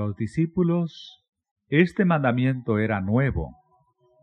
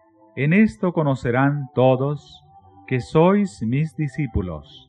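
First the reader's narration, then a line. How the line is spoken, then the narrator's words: Plain. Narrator (Spanish): dijo Jesús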